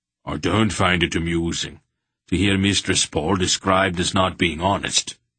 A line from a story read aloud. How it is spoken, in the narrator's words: Durnick said stiffly